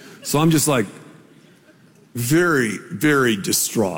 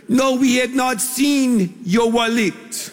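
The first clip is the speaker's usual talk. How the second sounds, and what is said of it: Put-on Peruvian accent. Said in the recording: “That's my best Peruvian accent. I'm not sure how they really talk”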